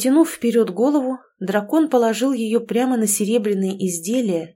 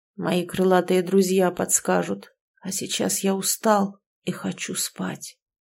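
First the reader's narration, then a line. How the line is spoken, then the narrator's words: Quiet, tired guard. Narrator (Russian): тихо произнес страж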